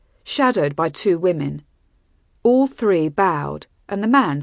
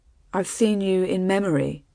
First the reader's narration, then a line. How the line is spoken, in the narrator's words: he said, gently in the common tongue